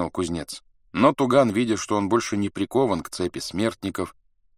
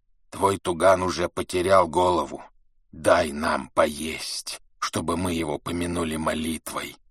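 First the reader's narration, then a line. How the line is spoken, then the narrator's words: Hoarse reply. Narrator (Russian): Хриплый голос ответил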